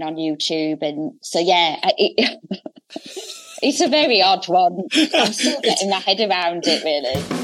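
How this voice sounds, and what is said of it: Hull accent. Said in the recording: “it's a completely normal accent ... it's not just the Hull accent. It's such a good voice.”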